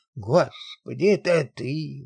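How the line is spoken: Joyful exclamation. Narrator (Russian): воскликнул с радостью

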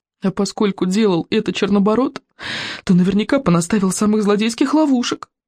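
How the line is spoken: Moaning. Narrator (Russian): простонал Рыбинок

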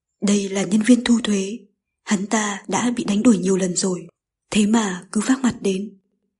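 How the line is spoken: Whisper. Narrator (Vietnamese): Cậu Gông Tơ Đăng thì thào

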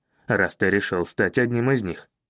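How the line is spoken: Snapping retort. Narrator (Russian): огрызнулся я

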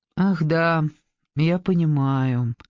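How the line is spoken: Disappointed, deflated tone. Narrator (Russian): разочарованно произнес он упавшим тоном

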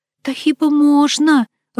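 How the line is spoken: Timid question. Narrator (Russian): робко спросила Люба, коренастая хохлушка

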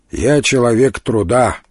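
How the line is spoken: Gloomy reply. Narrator (Russian): мрачно ответил Илья

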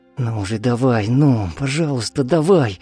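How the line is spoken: Whispering. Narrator (Russian): шептала она

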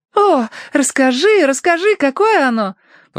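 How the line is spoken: Exclaimed. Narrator (Russian): воскликнула Цинни

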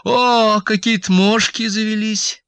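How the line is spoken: Joyful. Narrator (Russian): сказала радостно

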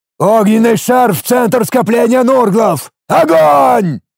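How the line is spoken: Roaring. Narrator (Russian): взревел

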